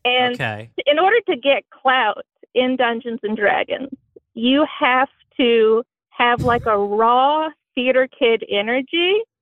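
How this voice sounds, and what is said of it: Strong Southern American accent. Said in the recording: “is your accent that you're using right now, is that an Indiana accent? It feels very Southern. ... I think it's just white trash accent. ... that feels like a lot for Indiana ... So this is your natural accent. You're very Southern”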